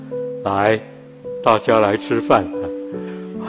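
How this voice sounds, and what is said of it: Solemn, dignified voice. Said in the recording (Chinese): “用很庄严的声音”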